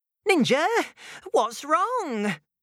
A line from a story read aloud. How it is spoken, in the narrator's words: called out